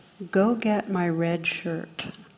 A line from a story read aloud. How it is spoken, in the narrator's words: captain replies very calmly